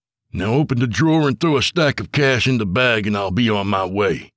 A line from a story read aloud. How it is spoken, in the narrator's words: Tony barked